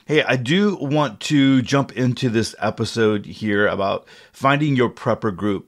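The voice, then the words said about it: Froggy, hoarse voice. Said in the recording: “my voice is a little froggy this morning ... my throat is a little foggy”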